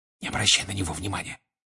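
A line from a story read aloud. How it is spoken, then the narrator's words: Whisper. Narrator (Russian): шепнул ему Седрик, нахмурившись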